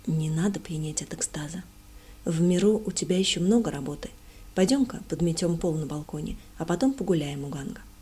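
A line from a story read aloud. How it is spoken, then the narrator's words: Simple calm speech. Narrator (Russian): просто и спокойно сказав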